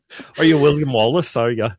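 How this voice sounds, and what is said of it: Put-on Scottish accent. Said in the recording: “I won't try a Scottish accent anymore.”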